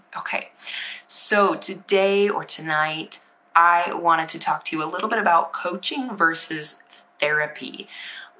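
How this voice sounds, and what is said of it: Raspy, low voice from illness. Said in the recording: “my voice is a little raspy, so I'm going to try to speak kind of low, because when I go into the higher registers of my voice, it gets a little, it starts to crack and break”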